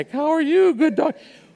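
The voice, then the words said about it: Really high-pitched voice. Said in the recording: “all of a sudden I have this really high voice”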